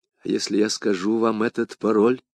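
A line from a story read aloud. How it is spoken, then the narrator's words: Whispered. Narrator (Russian): прошептала она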